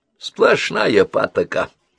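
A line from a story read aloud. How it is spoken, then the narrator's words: Grumbled. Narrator (Russian): проворчал он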